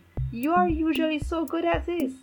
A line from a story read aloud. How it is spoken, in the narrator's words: Melissa pleaded